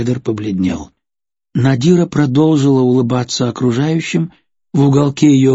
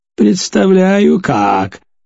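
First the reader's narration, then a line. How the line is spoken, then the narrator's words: Loud guffaw. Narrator (Russian): расхохотался хозяин аттракциона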